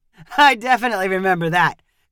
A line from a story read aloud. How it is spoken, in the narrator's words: Kyle said with a laugh